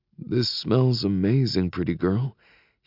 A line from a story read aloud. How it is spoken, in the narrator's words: he rasps